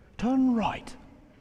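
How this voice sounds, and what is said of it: British-accented GPS voice. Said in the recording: “Some of you may have a British accent.”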